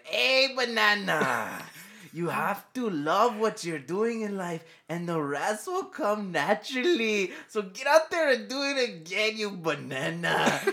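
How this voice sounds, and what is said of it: Impression of a Hawaiian surfer. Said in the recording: “That impression reminds me more of Cheech and Chong than a Hawaiian guy.”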